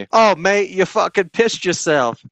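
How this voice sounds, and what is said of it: Put-on Australian accent. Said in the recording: “Was that a solid accent? ... Oh, is that from Australia?”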